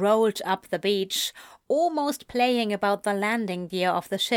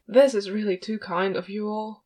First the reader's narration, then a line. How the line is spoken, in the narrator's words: Aziraphale mumbled